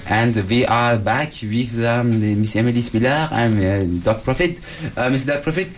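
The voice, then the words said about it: Put-on accent, not his normal one. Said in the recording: “I don't know why I'm speaking that accent right now. I'll change it, go back to my normal accent.”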